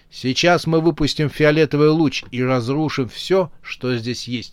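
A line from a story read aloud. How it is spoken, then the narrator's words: Plain. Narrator (Russian): сказал командир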